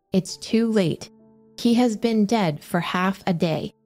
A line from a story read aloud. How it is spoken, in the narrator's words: replied